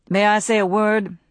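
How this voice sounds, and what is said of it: Flat Southern Charleston drawl. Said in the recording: “in a flat drawl that bespoke his Charleston birth”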